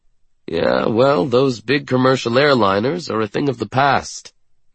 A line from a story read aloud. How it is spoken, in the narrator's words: he says grimly